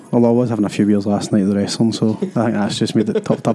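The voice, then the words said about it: Worn-out voice, very loud. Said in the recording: “is that a bit loud? ... It's very loud. ... As you can tell, obviously my voice is not in great condition. After Saturday, there was plenty of singing and chanting and celebrations”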